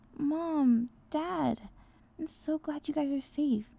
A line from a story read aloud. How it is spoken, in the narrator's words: he cried